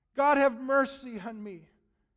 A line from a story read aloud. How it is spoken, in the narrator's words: He dropped to his knees, and he cried out to God